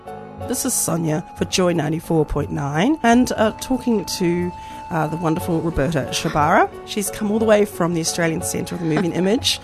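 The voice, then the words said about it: Slightly crackly voice. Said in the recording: “my voice is a bit crackly”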